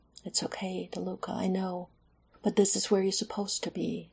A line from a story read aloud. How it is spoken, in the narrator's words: he whispered